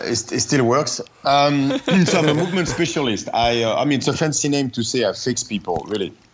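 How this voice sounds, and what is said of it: French-accented English. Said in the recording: “it's a very foreign accent ... I come from Paris”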